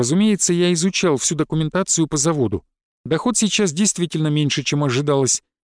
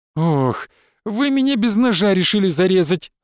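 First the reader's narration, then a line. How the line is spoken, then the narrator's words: Moaning. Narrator (Russian): застонал Филипп Михайлович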